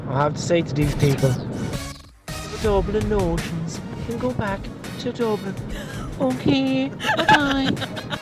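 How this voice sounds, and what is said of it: Attempted D4 Dublin accent. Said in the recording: “an attempt at a D4 accent.”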